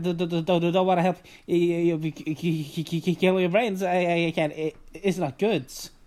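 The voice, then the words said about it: Stuttering cartoon character voice. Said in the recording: “Porky's stuttering ... I'm pretty proud of me doing that stuttering. ... that was a great impression.”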